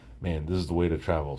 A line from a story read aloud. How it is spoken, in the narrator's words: said